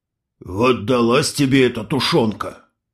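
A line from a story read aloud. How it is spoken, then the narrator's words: Old man grumbling. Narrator (Russian): пробурчал старик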